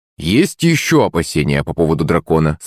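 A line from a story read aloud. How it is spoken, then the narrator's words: Plain. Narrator (Russian): спросил я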